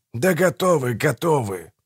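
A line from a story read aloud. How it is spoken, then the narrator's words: Grumbling, less resolute. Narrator (Russian): проворчал Манфред чуть менее решительно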